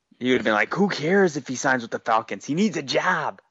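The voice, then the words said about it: Imitates another person's voice. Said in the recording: “doing a respectable Dave Cariello impression”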